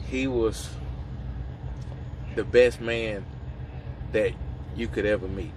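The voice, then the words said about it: Choked up, emotional voice. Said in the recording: “Makes me get a little choked up right now.”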